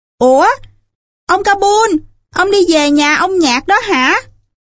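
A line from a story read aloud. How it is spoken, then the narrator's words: Laughing loudly. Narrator (Vietnamese): Raman cười lớn, bảo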